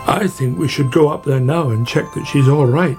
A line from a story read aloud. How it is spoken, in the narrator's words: said Badger